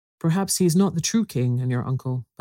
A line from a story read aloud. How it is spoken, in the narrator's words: Bellicent said